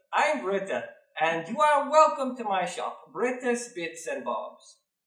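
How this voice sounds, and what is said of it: Put-on accent for a shopkeeper character. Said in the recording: “I'm still have to fine-tune this accent.”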